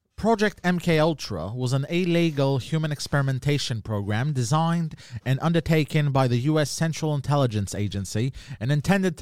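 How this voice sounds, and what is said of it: Put-on British accent. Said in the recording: “Can you do a British accent when you read it?”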